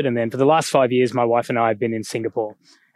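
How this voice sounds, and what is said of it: Australian accent. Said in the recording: “my accent from Australia”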